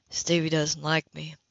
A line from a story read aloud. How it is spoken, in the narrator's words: murmured